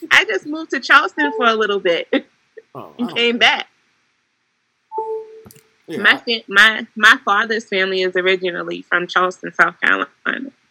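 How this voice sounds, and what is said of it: Charleston accent, sounds Caribbean. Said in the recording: “there goes the accent. ... she Trinidadian”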